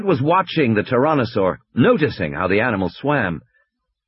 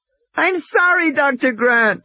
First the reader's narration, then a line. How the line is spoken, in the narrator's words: Lex wailed